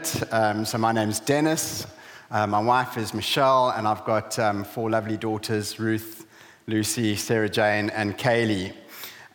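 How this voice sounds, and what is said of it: South African accent. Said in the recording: “my strange accent ... We're originally from South Africa”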